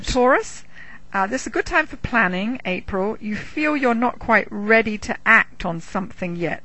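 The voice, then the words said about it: Speaks with a noticeable accent. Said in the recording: “Yes, my accent. ... Just my accent.”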